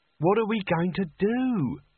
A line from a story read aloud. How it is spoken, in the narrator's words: She wailed